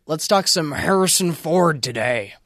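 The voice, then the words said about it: Harrison Ford impression. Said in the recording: “that's a great impression”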